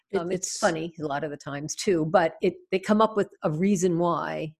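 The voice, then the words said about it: New York accent. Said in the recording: “I say I'm from New York ... my accent comes out more”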